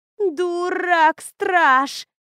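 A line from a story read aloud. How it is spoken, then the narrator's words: Wailed. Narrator (Russian): взвыла Лора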